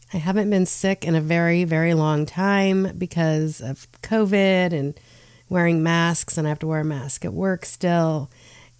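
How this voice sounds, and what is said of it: Voice sounds sick with a cold. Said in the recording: “I am under the weather and you might hear it in my tone today, my voice. I have a cold”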